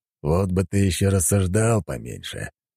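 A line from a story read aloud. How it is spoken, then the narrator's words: Grumbling. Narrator (Russian): пробурчал он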